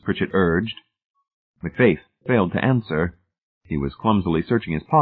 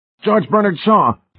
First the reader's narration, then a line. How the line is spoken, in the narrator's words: McFaith howled fearfully